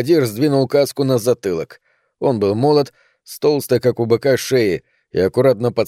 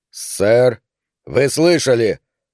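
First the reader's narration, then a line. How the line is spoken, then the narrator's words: Usual gruff voice. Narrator (Russian): ответил Картер своим обычным грубым голосом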